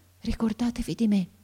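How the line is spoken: Boy's breathy murmur. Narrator (Italian): mormorò ancora il ragazzo con una voce che pareva un soffio

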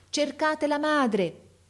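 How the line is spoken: Man shouting to crowd. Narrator (Italian): gridava il signore alla folla

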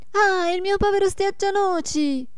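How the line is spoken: Shout. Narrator (Italian): gridò la Marietta

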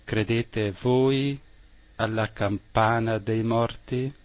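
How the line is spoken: Eerie, unsettling voice. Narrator (Italian): disse, con voce che faceva un certo senso

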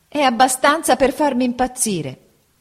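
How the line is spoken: Shouted. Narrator (Italian): gridò mia madre

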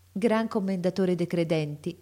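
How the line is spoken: Plain. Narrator (Italian): rispose la dama

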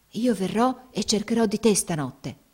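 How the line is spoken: Whisper up close. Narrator (Italian): le sussurrò facendosele accanto

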